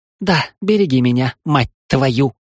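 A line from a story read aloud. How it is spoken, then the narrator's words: Hiss. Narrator (Russian): прошипела Селани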